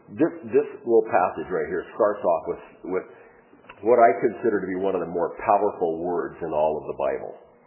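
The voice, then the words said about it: Voice sounds sick with a cold. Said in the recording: “my voice is not normal today. It's because I just have a horrific cold.”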